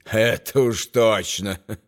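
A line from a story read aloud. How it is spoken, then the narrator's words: Laughing. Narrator (Russian): Том рассмеялся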